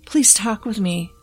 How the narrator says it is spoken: I pleaded with him

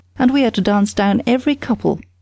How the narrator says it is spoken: cried the boy

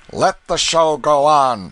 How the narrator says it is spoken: shouted Canty

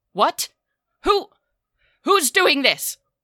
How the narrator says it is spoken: booming voice echo from around the chamber

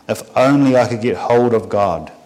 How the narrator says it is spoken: he said

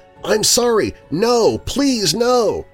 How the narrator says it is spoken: a child screaming

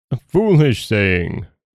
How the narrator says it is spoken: cried her father

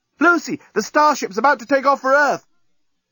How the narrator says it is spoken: the journalist, shouting from the breakwater

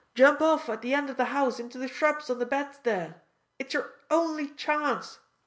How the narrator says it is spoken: shouted

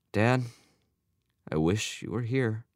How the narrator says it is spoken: Albert sighed

